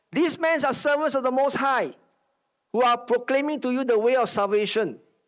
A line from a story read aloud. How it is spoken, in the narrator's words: shouting